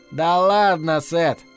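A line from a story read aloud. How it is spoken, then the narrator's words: Laughing. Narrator (Russian): Засмеялся мистер Кэссиди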